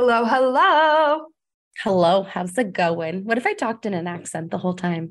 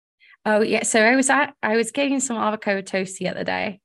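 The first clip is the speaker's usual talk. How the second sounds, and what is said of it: Put-on British accent. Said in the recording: “that's my British. I'm sorry, that's my British accent. That's my British accent.”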